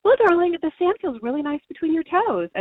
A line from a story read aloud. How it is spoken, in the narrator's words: cheerfully answering him